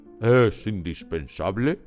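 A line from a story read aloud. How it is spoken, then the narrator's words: Booming pompous voice. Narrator (Spanish): dijo el oficial con voz campanuda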